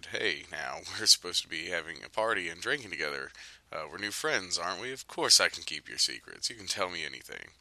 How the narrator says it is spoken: the man laughed, said

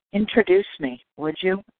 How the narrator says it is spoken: whispered

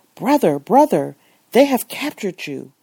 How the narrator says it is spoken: the excited Moroccan exclaimed

